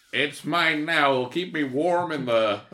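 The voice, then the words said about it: Attempted Cajun accent, drifting. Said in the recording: “I don't know what accent that turned into. I'm so sorry. ... It sounded like Taylor Kitsch trying to do a Cajun accent. Except my Cajun accent is perfect.”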